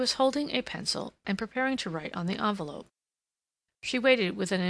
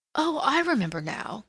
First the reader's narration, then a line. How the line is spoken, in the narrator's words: Catherine exclaimed, with irritation at her own stupidity